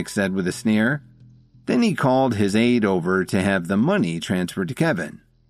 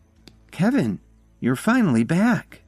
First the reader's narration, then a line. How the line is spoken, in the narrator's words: exclaimed